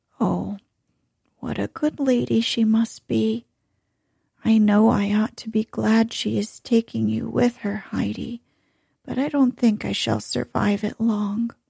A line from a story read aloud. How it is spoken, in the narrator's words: the old woman, smiling sadly, said